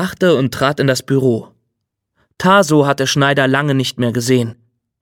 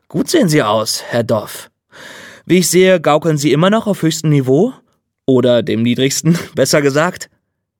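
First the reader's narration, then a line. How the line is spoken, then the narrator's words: Laughing. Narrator (German): Er lachte wieder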